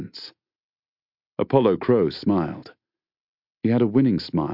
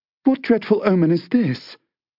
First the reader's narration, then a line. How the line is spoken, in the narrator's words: she gasped